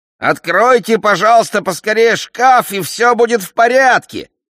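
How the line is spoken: Shout. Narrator (Russian): крикнул Филли

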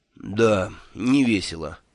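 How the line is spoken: Gloomy. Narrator (Russian): мрачно согласился Мелифаро

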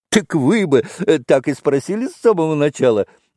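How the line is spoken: Loud laugh. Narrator (Russian): громко рассмеялся Митя

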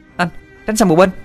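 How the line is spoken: Shout. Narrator (Vietnamese): nghe tiếng hét lên

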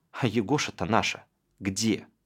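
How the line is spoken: Sad. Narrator (Russian): Галька грустно сказала

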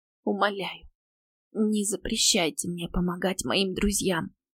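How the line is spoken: Tearful whisper. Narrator (Russian): прошептала я, борясь со слезами

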